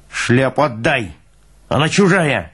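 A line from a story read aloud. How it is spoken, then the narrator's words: Barked. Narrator (Russian): рявкнул Пал Палыч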